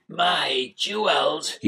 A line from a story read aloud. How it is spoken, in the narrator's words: he croaked